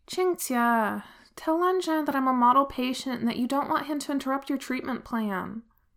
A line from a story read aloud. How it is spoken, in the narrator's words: Wei Wuxian just sighs and says